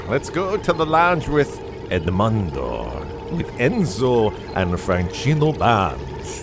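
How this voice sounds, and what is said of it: Put-on exaggerated accent. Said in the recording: “Did I do that with an appropriate accent? ... It is if you're selling something that has fine Corinthian leather in it.”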